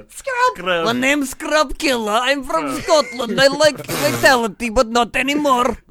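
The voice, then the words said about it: Put-on Scottish accent. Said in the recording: “How do you say scrub in a Scottish accent? ... That's pretty good.”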